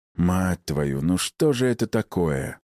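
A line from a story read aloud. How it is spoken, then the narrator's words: Heavy sigh. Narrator (Russian): тяжело вздохнул я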